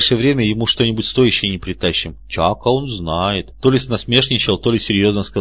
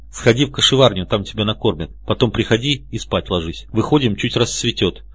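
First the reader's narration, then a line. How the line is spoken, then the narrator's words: Plain. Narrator (Russian): сказал мне комар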